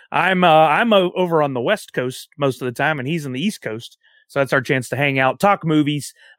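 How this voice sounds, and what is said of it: Southern American accent. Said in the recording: “ramble on with a Southern accent”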